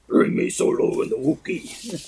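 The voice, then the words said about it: Jabba the Hutt impression. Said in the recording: “That's like Jabba, man. ... That was my Jabba impersonation.”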